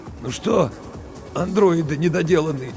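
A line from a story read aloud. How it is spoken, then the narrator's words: Hoarse. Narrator (Russian): сипло сказал Букин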